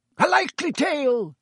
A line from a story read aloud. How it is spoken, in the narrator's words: roared Sir Cadogan